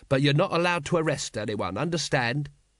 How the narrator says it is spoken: he added quickly

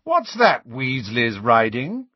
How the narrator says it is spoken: Malfoy called in his sneering drawl

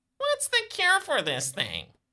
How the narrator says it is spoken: Spidey chuckles

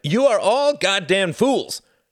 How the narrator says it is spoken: shouted Jorgen

